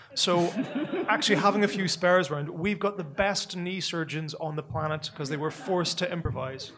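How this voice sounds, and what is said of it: Northern Irish accent. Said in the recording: “I'm a person from Northern Ireland. You can tell by the accent”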